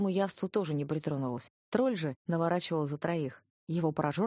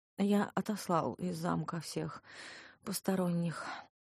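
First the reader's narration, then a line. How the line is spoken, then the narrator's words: Glum, dispirited. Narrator (Russian): уныло сообщил он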